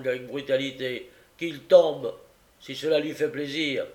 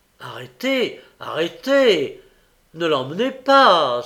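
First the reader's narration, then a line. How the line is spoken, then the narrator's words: Breathless exclamation. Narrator (French): s'écria le nouveau venu tout hors d'haleine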